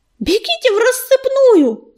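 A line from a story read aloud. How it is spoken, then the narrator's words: Yelled. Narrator (Russian): заорал он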